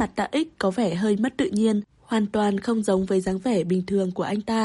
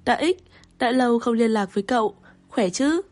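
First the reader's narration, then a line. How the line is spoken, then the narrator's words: Smiling, friendly. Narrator (Vietnamese): mỉm cười nói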